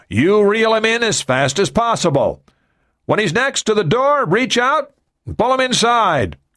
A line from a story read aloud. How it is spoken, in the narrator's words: Gunderson shouted